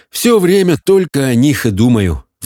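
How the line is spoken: Sighing. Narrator (Russian): вздохнул он

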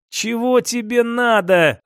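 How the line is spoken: Words forced out. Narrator (Russian): выдавил я из себя слова

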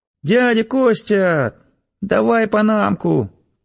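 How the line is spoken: Demanding squeak. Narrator (Russian): требовательно пискнули рядом

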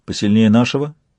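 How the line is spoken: Calm question. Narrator (Russian): спросил Сварог спокойно

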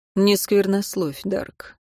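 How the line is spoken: Curt interruption. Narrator (Russian): оборвал его магистр

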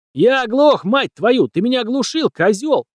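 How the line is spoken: Screaming. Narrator (Russian): вопил Боб

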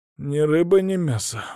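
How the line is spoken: Exhaled. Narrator (Russian): выдохнул я

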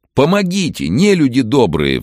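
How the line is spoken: Pleading. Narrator (Russian): взмолился Иван

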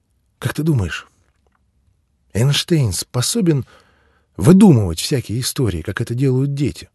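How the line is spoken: Quiet question. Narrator (Russian): спросила Нора тихо

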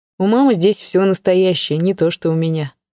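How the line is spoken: Sad wry chuckle. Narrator (Russian): грустно усмехнулся Саша

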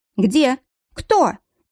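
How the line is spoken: Frightened asking back. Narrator (Russian): испуганно переспросила Лиля

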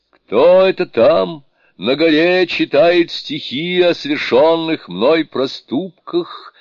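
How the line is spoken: Loud shout. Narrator (Russian): громко крикнул

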